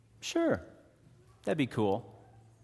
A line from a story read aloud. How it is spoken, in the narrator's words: calmly replied